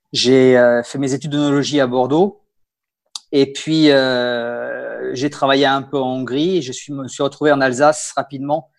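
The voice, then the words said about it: Bordeaux French accent. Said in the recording (French): “un joli accent qui n'est pas alsacien ... Moi, j'ai l'accent bordelais”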